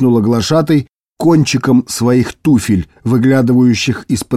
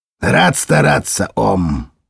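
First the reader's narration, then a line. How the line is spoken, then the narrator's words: Cold. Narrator (Russian): холодно ответил шеф-следователь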